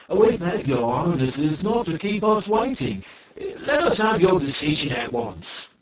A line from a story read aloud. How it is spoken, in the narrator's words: the Ki Ki grew impatient and exclaimed